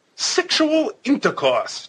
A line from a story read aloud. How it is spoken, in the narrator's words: triumphantly